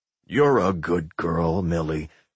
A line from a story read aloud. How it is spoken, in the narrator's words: Fred muttered